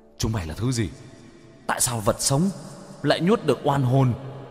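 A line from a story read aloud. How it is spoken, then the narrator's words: Terrified ghostly screams. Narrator (Vietnamese): Đám oan hồn hét lên sợ hãi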